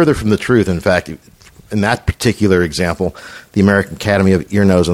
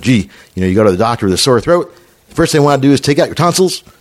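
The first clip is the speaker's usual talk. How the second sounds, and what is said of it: Bad Barack Obama impression. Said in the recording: “that's the worst Obama impression I've ever heard in my life”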